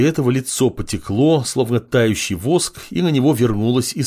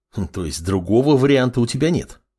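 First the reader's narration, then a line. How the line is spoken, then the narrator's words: Young man's snort. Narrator (Russian): хмыкнул парень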